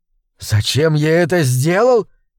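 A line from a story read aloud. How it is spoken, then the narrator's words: Hoarse, furious wheeze. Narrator (Russian): просипел я, чувствуя, как при мысли о ее вероломстве во мне вскипает ярость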